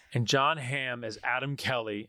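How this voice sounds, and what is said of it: Put-on American accent. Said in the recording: “I'm saying that because he's American. That's why I'm saying it in an American accent. ... You said that like an Olympic commentator.”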